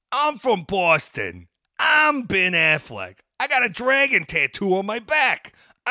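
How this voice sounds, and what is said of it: Boston accent impression. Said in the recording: “doing his best Boston accent ... Good God, that accent.”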